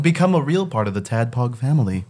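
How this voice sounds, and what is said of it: Radio announcer voice. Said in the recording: “I use my radio voice for it.”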